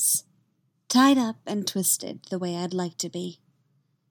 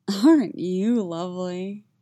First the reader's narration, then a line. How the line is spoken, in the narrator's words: he rumbles contentedly